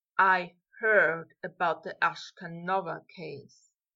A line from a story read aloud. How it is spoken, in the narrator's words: said, his voice so deep and lulling that it was like being drowned in melted chocolate